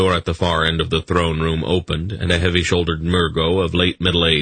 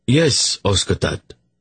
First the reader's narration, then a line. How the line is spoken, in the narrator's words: Urgot replied in an oddly respectful tone